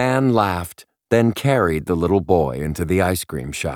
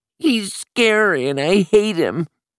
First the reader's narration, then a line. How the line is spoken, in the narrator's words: Simon howled